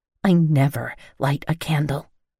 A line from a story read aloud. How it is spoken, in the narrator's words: I growled in a whisper so my grandma wouldn't hear